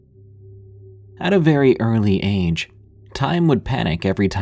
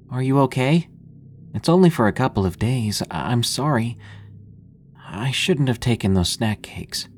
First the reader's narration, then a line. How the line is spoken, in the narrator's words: I said softly